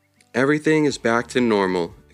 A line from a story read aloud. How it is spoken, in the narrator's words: exclaimed Levi